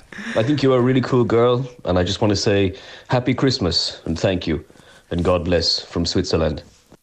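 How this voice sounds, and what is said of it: Roger Federer impression, faltering accent. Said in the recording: “This is me, Roger Federer, the tennis player ... That accent got really bad at the end. I thought we almost had it nailed.”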